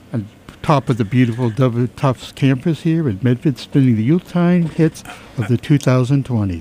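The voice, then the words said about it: Professional radio DJ voice. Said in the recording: “put on my professional DJ voice”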